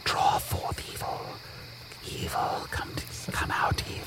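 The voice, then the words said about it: Whispering. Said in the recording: “Stop whispering in my chest.”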